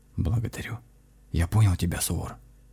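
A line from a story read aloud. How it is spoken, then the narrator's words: Whisper. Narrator (Russian): таким же шепотом сказал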